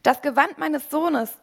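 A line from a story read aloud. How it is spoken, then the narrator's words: Called out. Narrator (German): rief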